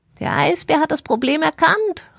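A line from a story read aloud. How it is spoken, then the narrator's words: Excited cry. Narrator (German): rief sie und flatterte wild mit ihren Flügeln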